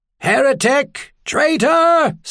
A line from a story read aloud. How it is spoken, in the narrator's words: someone screamed